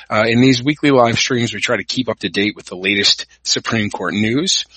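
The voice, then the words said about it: Hoarse, partly lost voice. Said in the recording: “I'm recovering from a cold. I've kind of lost my voice a little”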